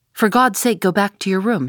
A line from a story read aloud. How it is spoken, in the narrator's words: he cried